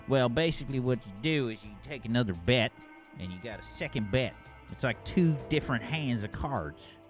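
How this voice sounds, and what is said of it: Put-on Southern US accent. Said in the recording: “Did I pass your Southern accent seal of approval?”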